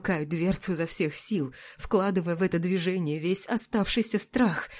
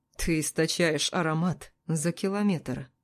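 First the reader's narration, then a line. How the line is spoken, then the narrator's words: Calm reply. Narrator (Russian): отвечает спокойно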